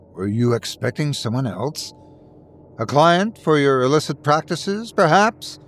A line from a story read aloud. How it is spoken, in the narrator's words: I scoffed